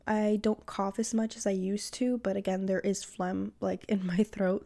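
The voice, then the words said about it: Slightly phlegmy, congested voice. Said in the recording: “having phlegm. Um, you might hear that in my voice a little bit”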